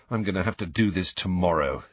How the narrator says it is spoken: he muttered

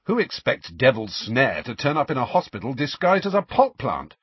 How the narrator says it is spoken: said Ron sharply

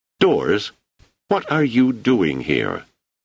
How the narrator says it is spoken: Thunderstruck, exclaimed

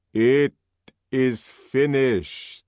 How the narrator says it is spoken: said old Mitsima in a loud voice

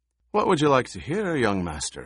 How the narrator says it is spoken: Halleck asked

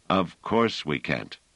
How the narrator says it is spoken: said Pellerat

